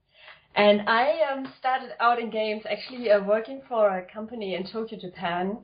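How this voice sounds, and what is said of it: German accent. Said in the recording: “As you can probably tell from the accent, I was born in Germany.”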